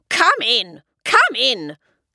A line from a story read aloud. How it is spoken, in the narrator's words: snapped the Grand High Witch